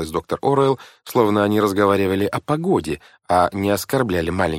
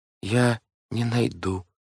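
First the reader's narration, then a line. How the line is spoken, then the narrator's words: Weak voice. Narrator (Russian): слабым голосом проговорил Клаус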